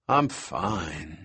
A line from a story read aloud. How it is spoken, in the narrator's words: Malcolm said in a dreamy voice